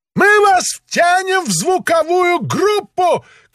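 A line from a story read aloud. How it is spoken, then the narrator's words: Shouted. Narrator (Russian): крикнул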